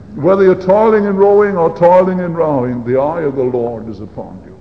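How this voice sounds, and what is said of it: Speaker's own accent. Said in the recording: “I hope that my accent doesn't serve to further confuse you.”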